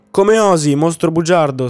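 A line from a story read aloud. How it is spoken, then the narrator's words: Queen shrieking. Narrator (Italian): strillò la regina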